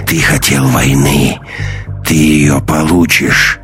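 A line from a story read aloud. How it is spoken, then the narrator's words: Growling wolf. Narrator (Russian): прорычал волк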